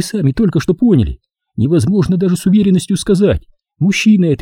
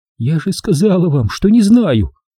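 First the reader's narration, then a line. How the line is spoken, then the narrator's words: Tense. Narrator (Russian): ответила напряженным голосом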